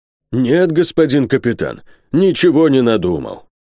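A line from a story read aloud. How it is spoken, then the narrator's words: Sighing. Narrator (Russian): вздохнул Бензуф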